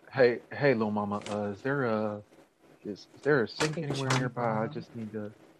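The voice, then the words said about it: Johnny Bravo cartoon character impression. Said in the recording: “Your Johnny Bravo impression is spot on”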